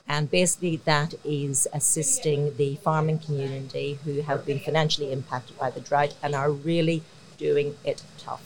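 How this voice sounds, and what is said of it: Irish accent. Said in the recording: “a beautiful Irish accent”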